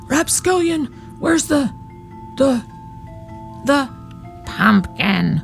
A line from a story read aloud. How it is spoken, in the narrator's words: whispered the old woman